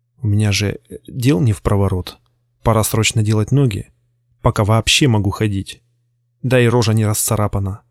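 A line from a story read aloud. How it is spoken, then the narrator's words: Whispering inner voice. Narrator (Russian): шептало мое подсознание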